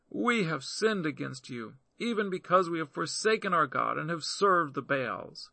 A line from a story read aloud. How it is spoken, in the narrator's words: The children of Israel cried at Yahweh, saying